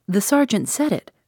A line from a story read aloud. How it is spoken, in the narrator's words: cried Betteridge